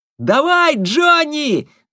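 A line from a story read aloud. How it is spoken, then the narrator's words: Ringing shout from below. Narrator (Russian): звонко крикнул снизу Кирен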